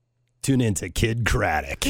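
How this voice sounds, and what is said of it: Radio DJ announcer voice. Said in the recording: “try your radio voice”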